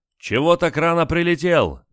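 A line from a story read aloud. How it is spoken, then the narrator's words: Shouting over engine roar. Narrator (Russian): закричал Олег, пытаясь переорать рев движков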